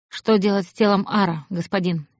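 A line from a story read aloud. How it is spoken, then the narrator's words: Quiet question. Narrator (Russian): негромко спросил Гахар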